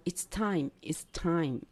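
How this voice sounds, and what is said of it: Taiwanese-accented English. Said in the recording (Chinese): “有的台湾人会讲”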